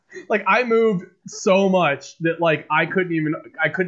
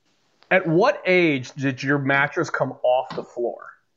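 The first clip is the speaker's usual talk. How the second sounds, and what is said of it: Mock-serious journalist voice. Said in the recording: “This is my serious voice here. This is my investigative journalism voice.”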